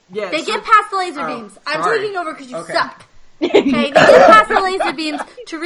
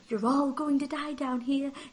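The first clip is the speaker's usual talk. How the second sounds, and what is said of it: Fancy British accent. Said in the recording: “in her little fancy British accent.”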